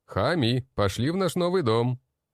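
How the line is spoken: Loud. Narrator (Russian): громко произнес я

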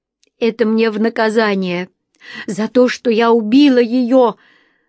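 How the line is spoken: Hysterical sobbing. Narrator (Russian): Лариса истерично всхлипнула

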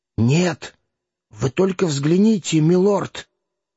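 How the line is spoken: Frightened whisper. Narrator (Russian): Архиепископ повторив испуганным шепотом

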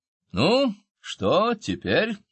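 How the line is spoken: Cheerful. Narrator (Russian): бодро произнес

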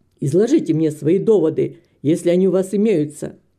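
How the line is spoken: Angry. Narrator (Russian): сердито сказал

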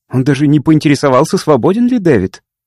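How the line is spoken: Snorted, explaining. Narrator (Russian): Хейган фыркнул и объяснил

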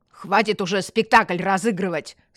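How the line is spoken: Stern shout. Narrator (Russian): строго прикрикнул полицейский

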